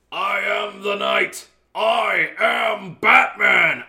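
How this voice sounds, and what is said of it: Kevin Conroy Batman impression. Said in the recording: “I can't do a good Kevin Conroy impression.”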